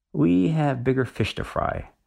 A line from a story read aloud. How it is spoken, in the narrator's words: says Kiko